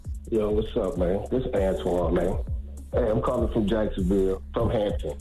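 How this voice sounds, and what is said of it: Deep, low voice. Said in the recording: “Why you got that deep voice on? You trying to be all sexy this morning, bro?”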